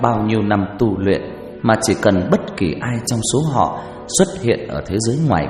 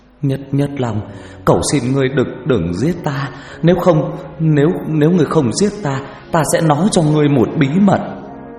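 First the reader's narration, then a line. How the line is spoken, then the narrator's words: Stammering. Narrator (Vietnamese): Hắn lắp bắp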